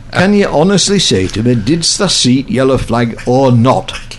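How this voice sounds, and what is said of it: Strong Lancashire accent. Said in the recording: “in a strong Lancashire accent”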